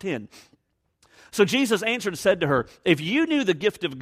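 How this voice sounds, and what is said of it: Usual voice. Nothing is said of it.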